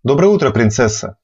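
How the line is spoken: King's warm smiling greeting. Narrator (Russian): Радушно поприветствовал король, мягко улыбнувшись

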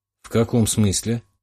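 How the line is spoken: Gloomy question. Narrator (Russian): мрачно поинтересовался

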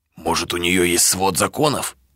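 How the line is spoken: Whispered. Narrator (Russian): прошептал Драго

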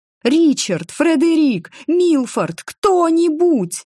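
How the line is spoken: Silent mental shout. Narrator (Russian): кричала я безмолвно

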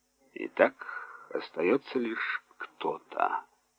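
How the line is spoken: Muffled and thoughtful. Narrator (Russian): сказал глухо и задумчиво

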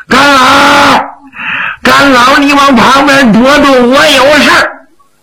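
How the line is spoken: Loud shout. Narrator (Chinese): 方树安 高声呐喊

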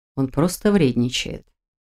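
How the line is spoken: Conspiratorial whisper. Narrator (Russian): заговорщическим шепотом заявил делец

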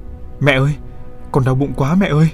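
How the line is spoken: Shouted. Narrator (Vietnamese): hét lên

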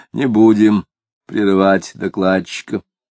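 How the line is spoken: Muffled deep bass. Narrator (Russian): сказал глухим басом

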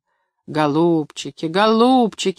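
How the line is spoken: Stern. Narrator (Russian): сказал строго принц-герцог

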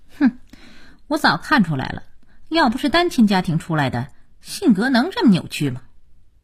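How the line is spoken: Cold sneer. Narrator (Chinese): 佳期冷冷一笑

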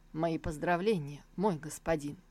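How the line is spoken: Solemn. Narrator (Russian): Джан Юанвая, который проговорил торжественно

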